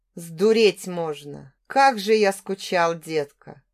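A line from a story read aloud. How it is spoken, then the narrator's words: Hoarse rasp. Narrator (Russian): прохрипел он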